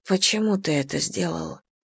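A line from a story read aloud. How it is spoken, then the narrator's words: Quiet question. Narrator (Russian): Тихо спрашиваю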